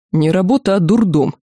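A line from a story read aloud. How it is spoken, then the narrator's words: Grumbling guard. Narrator (Russian): пробурчал охранник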